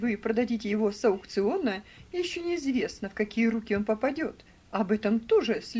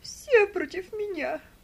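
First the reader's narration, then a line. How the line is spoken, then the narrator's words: Tearful wailing. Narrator (Russian): сквозь слезы причитала она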